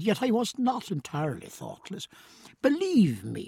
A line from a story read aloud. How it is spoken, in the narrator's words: he said earnestly